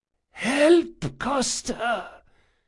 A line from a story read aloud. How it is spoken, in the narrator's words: he whispered, wheezing with a sound that was painful just to hear